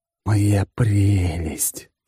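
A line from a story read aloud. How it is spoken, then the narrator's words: Ecstatic hiss. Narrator (Russian): прошипел я восторженно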